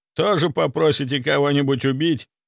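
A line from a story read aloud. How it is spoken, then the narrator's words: Snort. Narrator (Russian): хмыкнул я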